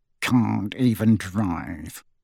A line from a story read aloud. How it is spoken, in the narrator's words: he muttered under his breath, his moustache rippling indignantly